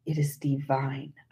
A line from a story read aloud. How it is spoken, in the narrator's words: whispered